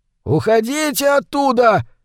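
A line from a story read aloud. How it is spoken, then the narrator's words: Bearded man shouting from boat. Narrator (Russian): закричал с траулера какой-то бородач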